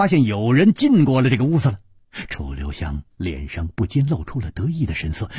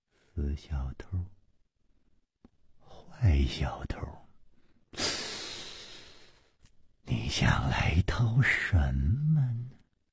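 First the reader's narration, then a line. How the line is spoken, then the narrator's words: Dreamy murmur. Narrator (Chinese): 薛宝宝……呆呆的出神……喃喃地说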